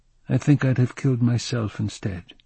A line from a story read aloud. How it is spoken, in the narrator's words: he said in a flat voice